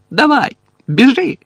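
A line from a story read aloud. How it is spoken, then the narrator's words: Sobbing shout. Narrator (Ukrainian): крикнула Чо, ридаючи в хустинку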